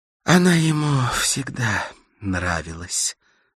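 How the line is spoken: Sighed. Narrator (Russian): вздохнула Карла

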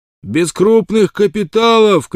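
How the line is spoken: Shout. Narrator (Russian): крикнул кто-то

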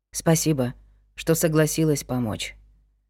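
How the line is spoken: Quiet. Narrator (Russian): сказал он тихо

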